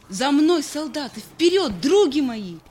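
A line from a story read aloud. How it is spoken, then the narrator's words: Shouting. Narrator (Russian): кричала она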